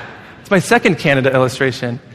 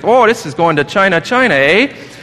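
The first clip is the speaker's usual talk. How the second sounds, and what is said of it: Put-on Canadian accent. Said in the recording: “the Canadian postal worker ... I'm not going to try that accent. I'm not as good as that one.”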